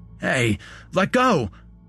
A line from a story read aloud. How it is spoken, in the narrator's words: I said loudly, trying to wrest my arm out of his iron grip